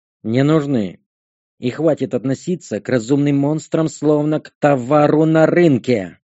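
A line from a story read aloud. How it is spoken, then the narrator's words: Gorilla growl. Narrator (Russian): Рыкнула горилла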